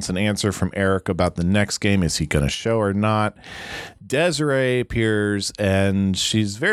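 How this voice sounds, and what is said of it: Usual voice. Nothing is said of it.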